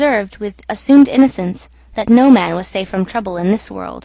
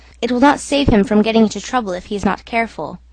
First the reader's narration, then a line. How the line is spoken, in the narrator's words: muttered the manager darkly